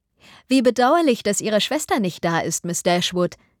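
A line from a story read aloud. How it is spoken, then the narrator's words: Plain. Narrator (German): sagte Miss Steele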